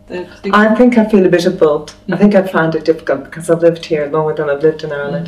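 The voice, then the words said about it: Irish accent. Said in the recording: “I haven't lost my accent”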